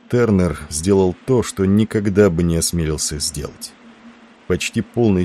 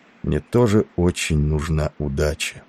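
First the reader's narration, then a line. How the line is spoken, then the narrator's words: Barely audible. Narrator (Russian): прибавил он едва слышно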